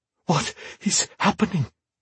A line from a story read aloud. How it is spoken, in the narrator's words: Bane breathed, fear in his dark eyes